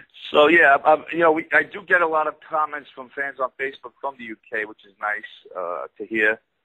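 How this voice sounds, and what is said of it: Brooklyn accent. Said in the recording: “me with my Brooklyn accent ... A bit like Rocky”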